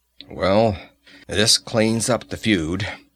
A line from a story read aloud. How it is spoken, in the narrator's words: he grunted